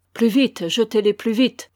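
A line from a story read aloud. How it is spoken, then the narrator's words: Shouting. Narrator (French): criait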